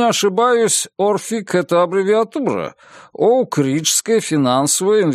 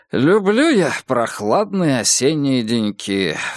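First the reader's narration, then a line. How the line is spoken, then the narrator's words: Sighing. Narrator (Russian): вздохнул доктор Рот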